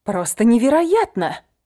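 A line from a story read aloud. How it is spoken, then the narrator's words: Exclamation. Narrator (Russian): воскликнула Фейт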